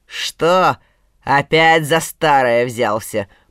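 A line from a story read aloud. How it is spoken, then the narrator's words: Growl. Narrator (Russian): прорычал соловей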